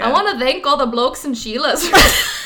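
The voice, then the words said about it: Attempted Australian accent. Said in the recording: “I'm going to try to do an Australian accent.”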